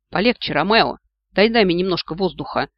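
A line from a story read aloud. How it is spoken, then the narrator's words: Snorting. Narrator (Russian): фыркнул Васька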